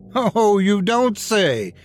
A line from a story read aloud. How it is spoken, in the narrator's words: Yerk shouted